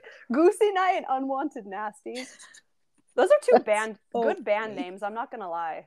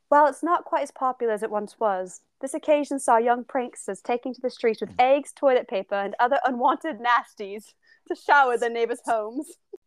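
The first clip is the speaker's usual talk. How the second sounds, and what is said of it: Put-on British accent, reading aloud. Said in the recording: “the British article I read phrased it like this. I'm going to read it in an accent because I think it's funny.”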